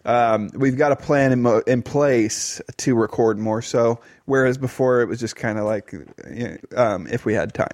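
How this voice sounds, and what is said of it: Strained, fading voice. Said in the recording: “my voice is kind of on its way out right now”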